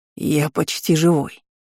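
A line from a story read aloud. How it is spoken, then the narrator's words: Wheezing behind a door. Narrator (Russian): просипели за дверью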